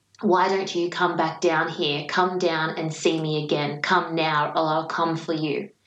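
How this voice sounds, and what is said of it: Deep, demonic voice. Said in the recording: “in the most demonic, deep voice I have ever heard”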